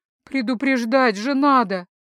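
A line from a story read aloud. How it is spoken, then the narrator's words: Near-groan of dismay. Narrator (Russian): чуть не застонала я от огорчения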